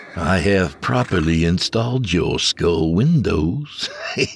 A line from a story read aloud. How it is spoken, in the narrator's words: the voice said with a chuckle